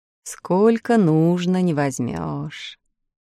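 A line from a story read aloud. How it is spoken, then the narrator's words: Bitter sigh. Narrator (Russian): вздохнул в виде горечности ребят Ильсор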